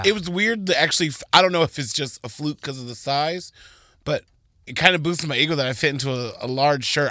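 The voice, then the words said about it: Hoarse, worn-out voice. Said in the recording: “my voice is totally shot from this weekend”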